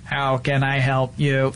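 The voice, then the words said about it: Robot voice. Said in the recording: “my robot voice”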